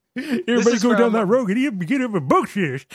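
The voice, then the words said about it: Southern toothless prospector character voice. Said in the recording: “What accent is that? Besides what one-off character in a chapter of a Stephen King novel? ... Toothless prospector. ... Southern Senator.”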